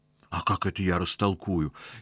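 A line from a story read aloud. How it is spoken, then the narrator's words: Frightened. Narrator (Russian): испуганно сказал Аристарх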